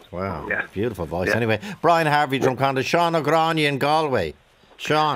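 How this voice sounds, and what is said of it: Dublin accent. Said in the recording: “your indigenous Dublin accent”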